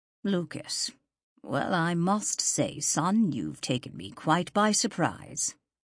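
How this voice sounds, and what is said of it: Stiff, formal British-accented older man. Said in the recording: “The voice was stronger now, although Lucas heard the shock in the words ... The British accent had never faded from his father's voice ... The formal stiffness the man injected into his tone”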